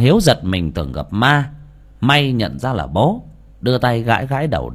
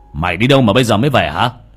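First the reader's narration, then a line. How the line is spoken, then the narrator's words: Old man scolding. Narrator (Vietnamese): ông Lương lại quát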